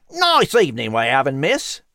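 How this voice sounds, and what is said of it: Cockney British accent. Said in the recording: “hearing the rat speak with a Cockney British accent”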